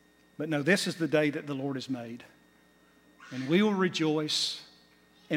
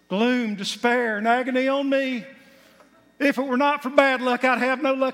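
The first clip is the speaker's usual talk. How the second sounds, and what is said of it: Put-on country twang. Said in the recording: “I'm trying to do my twang.”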